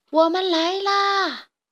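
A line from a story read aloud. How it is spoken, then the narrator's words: Small hedgehog calling out. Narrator (Chinese): 小刺猬的呼喊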